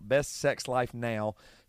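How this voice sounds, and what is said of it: Put-on Southern accent. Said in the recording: “This is my Southern accent coming out.”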